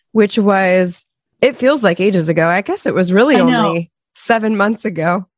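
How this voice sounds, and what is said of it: Hoarse, strained laryngitis voice. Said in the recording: “I have a little bit of laryngitis right now, so I sound like prepubescent ... boy ... Or a smoker ... like Kermit the Frog”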